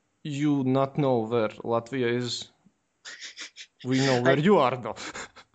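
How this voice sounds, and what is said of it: Thick put-on foreign accent. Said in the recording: “I'm gonna do my thick accent now.”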